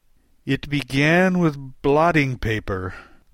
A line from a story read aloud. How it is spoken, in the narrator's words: the knight answered with a groan